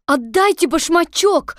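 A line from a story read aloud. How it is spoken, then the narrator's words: Shouted. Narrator (Russian): закричала Элли, придя в себя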